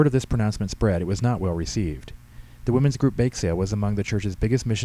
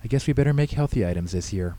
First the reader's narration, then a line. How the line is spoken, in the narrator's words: Missy said